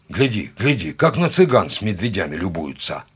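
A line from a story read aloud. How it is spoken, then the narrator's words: Muttered grumble. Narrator (Russian): буркнул кто-то из наших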